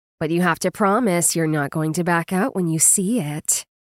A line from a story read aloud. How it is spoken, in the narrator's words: she purred in a sly voice